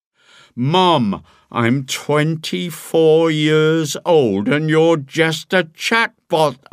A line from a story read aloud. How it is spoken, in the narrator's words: scream